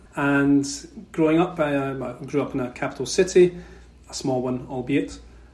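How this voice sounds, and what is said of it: Scottish accent. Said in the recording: “as you may be able to tell from my accent, I'm from Scotland.”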